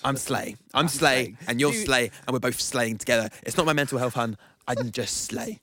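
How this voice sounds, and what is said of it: Good imitation of another person's accent. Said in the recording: “That's actually pretty good. That's a good accent.”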